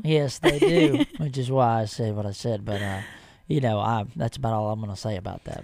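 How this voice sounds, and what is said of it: Texan Southern accent. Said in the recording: “Where's that accent from? ... Waco, Texas.”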